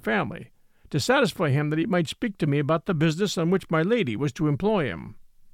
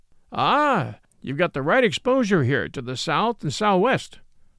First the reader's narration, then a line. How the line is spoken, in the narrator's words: says the sergeant, with a streak of pleasure in his melancholy voice